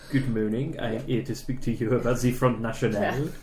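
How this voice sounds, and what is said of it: Put-on French accent. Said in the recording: “speaking in my best French accent”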